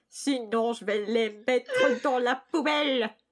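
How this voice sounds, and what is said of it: Put-on nasal European accent. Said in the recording (French): “un homme à la voix nasillarde et à l'accent européen ... ça prend un accent européen?”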